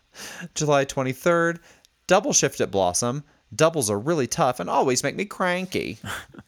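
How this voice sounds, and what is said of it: Impression of another person's voice. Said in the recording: “Do you like my impression, my mic impression? ... It's not far off, rather.”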